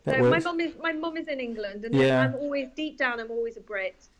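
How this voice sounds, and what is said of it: British Yorkshire accent mixed with Australian. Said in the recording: “there's a little bit of Yorkshire coming through there, but I can hear a bit of Sydney as well. So you've got that sort of lovely mix.”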